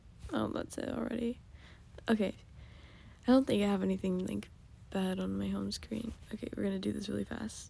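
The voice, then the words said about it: Tired, rough morning voice. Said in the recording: “I'm so tired. My voice sounds so bad in the morning”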